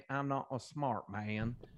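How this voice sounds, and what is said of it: Attempted Alabama accent. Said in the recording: “that was a Canadian attempting an Alabama accent”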